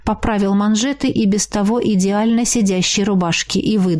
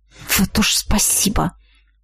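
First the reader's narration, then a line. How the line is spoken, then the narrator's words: Through gritted teeth. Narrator (Russian): процедила я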